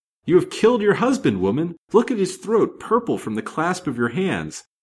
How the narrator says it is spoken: cried Mrs

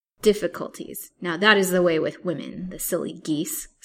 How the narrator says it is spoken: snorted Peter in angry contempt

